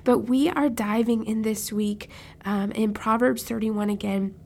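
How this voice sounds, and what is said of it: Rough, slightly off-sounding voice. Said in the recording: “Excuse my voice, it might sound a little crazy. I just got over a cold”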